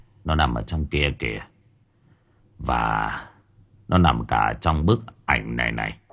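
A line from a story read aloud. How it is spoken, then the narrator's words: Man sighing. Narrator (Vietnamese): Người đàn ông thở dài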